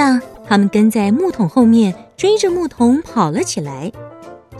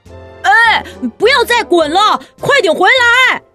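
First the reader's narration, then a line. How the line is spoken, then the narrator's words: Loud shouting. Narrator (Chinese): 跳跳虎对着木桶大声地叫着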